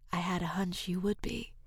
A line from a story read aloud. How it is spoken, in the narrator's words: she whispered